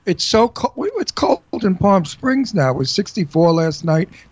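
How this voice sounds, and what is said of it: New York Brooklyn accent. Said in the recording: “my New York Brooklyn accent”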